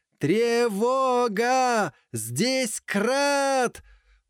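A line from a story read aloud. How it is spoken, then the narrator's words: Hoarse shout, coughing. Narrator (Russian): Прокричал уже осипшим голосом и зашелся в кашле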